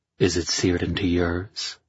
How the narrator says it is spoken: I murmured, pleased by the thought

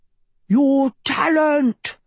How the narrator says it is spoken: roared Sheba

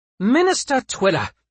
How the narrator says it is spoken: the Queen snapped

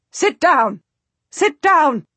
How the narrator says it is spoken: the Duchess shrieks

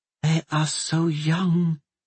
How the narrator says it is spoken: Madame Chu said in a whisper

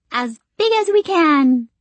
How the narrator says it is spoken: the screechy-voiced one replies

